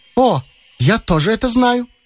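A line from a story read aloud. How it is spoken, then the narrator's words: Cheerful. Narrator (Russian): весело подхватила Шурочка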